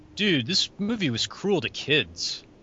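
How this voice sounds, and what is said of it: Impersonation of a co-host's voice. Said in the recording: “That's a really good impersonation of me. That's great. Yeah. That's exactly what I sound like.”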